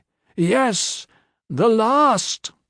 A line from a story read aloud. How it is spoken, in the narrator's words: Culus replied, her voice trembling as it rose